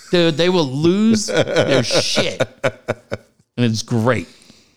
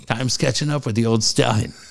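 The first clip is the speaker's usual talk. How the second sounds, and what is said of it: Dramatic, theatrical voice. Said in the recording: “in that dramatic voice”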